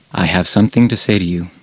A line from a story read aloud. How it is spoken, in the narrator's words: he addresses me gravely